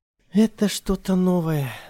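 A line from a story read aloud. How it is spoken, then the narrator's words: With a sigh. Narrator (Russian): вздохнув, сказала она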